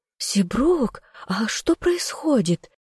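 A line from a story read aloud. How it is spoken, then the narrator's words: Trembling voice. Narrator (Russian): спросила Беатрис дрожащим голосом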